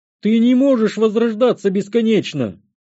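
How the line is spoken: Horrified exclamation. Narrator (Russian): воскликнул маг в ужасе

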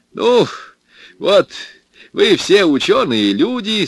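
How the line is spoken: Loud, mocking. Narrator (Russian): сказал он громко и насмешливо

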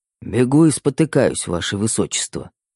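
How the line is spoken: Muttered. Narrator (Russian): пробормотал Верняков

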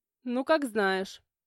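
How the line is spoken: Snort. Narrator (Russian): хмыкнул Тимур

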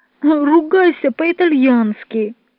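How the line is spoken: Pleading. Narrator (Russian): взмолился Джованни

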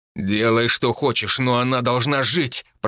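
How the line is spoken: Growl. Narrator (Russian): прорычал Тайфун

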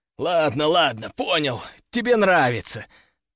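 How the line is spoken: Strained wheeze while struggling. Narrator (Russian): прохрипел я, пытаясь высвободиться

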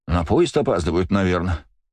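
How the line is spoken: Sighing. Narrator (Russian): вздохнул я

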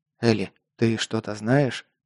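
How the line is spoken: Whisper. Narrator (Russian): прошептал я

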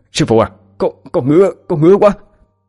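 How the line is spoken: Frightened stammering. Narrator (Vietnamese): cờ bay lắp bắp mà nói

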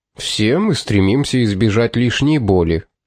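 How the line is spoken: Dry tone. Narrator (Russian): сухим тоном промолвил тот

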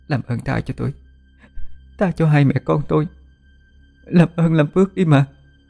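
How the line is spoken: Trembling pleading. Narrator (Vietnamese): Cô run rẩy nài nỉ

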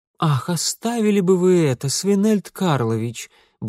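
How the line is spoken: Curt, then stifled giggle. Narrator (Russian): бросила его жена и вдруг сдавленно хихикнула

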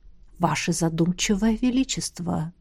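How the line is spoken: Whispered. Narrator (Russian): донесся до моего слуха шепот Сиарея

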